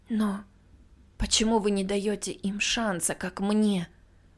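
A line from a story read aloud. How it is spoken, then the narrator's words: Desperate whisper. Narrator (Russian): прошептала я отчаянно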